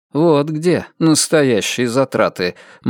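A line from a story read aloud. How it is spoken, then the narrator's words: Gloomy comment. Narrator (Russian): мрачно прокомментировал Перси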